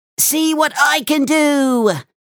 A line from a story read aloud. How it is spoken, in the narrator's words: squealed Max